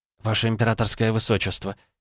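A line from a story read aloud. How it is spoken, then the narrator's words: Quiet address. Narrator (Russian): тихо обратилась к принцу Кирана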